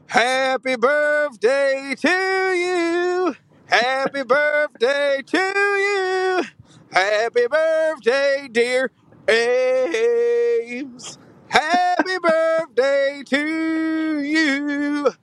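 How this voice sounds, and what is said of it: Singing with a slight twang. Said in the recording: “You got a little twang.”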